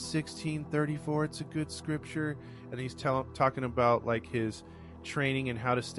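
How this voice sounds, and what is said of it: Usual voice. Nothing is said of it.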